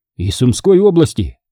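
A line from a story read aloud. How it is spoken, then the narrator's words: Plain. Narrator (Russian): говорит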